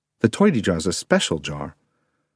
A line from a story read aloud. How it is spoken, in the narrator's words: replied smoothly